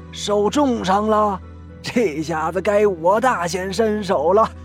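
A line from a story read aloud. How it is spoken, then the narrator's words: Angry roar. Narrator (Chinese): 刘丽丽连忙怒吼了起来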